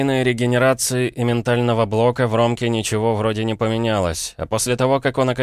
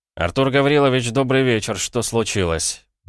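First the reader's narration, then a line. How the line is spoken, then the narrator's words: Blunt, rather cool question. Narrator (Russian): прямо спросил я довольно прохладным тоном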